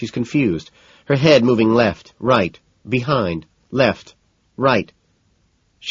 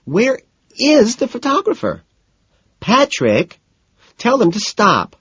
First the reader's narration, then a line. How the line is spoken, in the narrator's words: Daisy squeals